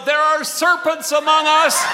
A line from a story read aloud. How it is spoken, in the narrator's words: the widow McCoy who stood up and called out